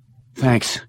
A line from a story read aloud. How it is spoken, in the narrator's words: He gasping for breath